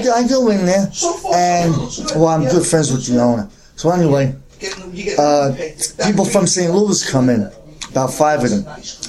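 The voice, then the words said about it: Brooklyn accent. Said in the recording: “his Brooklyn accent”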